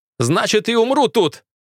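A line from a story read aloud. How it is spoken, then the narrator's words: Shouted reply. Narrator (Russian): крикнул я в ответ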